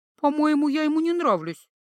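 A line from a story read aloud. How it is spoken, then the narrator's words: Hopeless mutter. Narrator (Russian): безнадежно пробормотала Ива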